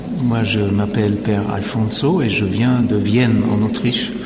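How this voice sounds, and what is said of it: Slight Austrian accent in French. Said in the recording (French): “Vous entendez un petit accent”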